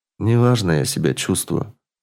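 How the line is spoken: Mumbled with deep sigh. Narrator (Russian): промямлил Олег и глубоко вздохнул

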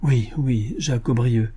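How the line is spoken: Young man's stammer. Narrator (French): balbutia le jeune homme

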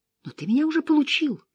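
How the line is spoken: Timid, smiling. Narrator (Russian): напомнила она, робко улыбнувшись

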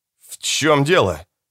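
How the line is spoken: Strained, forced out. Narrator (Russian): выдавил из себя Чиприано

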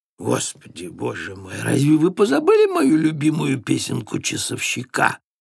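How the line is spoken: Laughing reply. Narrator (Russian): ответил Дроссельмейер, смеясь

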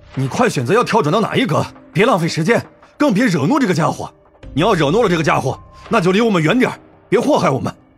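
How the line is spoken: Irritated man's loud grumbling. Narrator (Chinese): 那个啤酒肚男人也一脸烦躁，嚷嚷道

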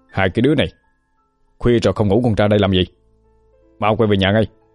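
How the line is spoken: Shouted. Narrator (Vietnamese): quát lên

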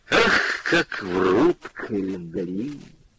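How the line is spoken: Sad. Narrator (Russian): Печально сказал Прохоров

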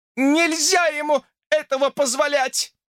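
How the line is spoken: Shouted. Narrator (Russian): закричала Фанни

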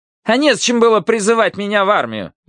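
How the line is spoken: Loud snapping retort. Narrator (Russian): громко огрызнулся директор

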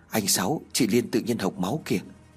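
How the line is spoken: Trembling whisper. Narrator (Vietnamese): thì thào nói run rẩy

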